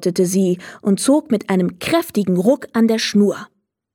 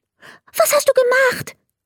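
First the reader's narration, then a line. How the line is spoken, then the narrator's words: Very excited question. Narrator (German): fragte er ganz aufgeregt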